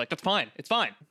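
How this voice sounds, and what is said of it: Curt, negative non-neutral tone. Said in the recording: “generally perceived as negative ... never been said in a neutral tone of voice”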